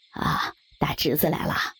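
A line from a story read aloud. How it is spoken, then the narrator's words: Hoarse voice. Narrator (Chinese): 沙哑着嗓子说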